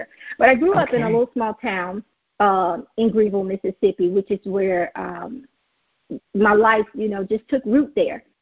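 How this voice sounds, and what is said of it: Southern US accent. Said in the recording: “you can tell by my southern accent,”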